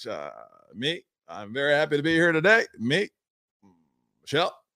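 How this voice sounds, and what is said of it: Barack Obama impression. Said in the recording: “You almost went into your Obama voice ... You sound a little bit Obama just at the very end ... is an amazing Obama ... you must have similar similar vocal cords because you can do that voice so easily”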